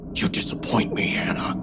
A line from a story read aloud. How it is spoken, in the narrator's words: he whispered, so softly only I could hear